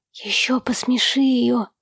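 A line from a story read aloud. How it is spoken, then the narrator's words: Whisper. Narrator (Russian): шепнул Эрни отцу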